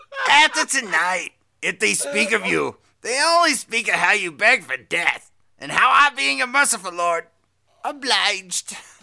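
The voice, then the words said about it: Weak raspy New York villain voice. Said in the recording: “that's the worst... It's worse than mine... I don't have enough, like, raspy, like, Yiddish New York thing going on”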